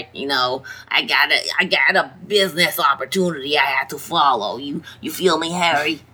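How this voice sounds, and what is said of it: Character voice with an accent. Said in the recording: “I don't know why he has that accent, but he does.”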